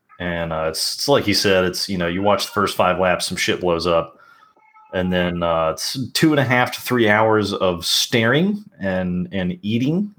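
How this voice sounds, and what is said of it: Southern US accent. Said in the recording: “as you may be able to tell by my accent, I'm from the South”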